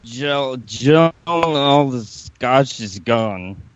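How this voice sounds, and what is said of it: Impression of Graham Cawthon. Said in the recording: “That is the greatest Graham Cawthon impersonation I've ever heard!”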